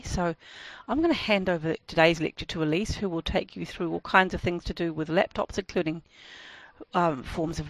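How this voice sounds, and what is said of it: Voice in poor condition. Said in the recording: “as you can hear, my voice isn't in particularly good condition today”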